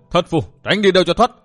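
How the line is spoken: Loud laughing. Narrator (Vietnamese): lệnh chủ cười lớn

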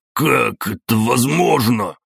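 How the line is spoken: Puzzled muttering. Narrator (Russian): недоуменно бормотал Хорькин-старший

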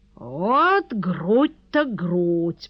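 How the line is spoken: Drawl. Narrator (Russian): протянул он

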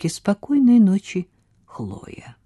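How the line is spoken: Calm repeat. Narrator (Russian): повторил так же спокойно, как и раньше

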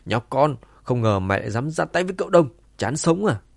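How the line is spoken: Shouted loudly. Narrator (Vietnamese): Sau giây phút ngơ ngác ngắn ngủi, tên đầu chọc hét lớn

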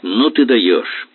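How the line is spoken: Angry. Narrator (Russian): сердито проговорил Коротков

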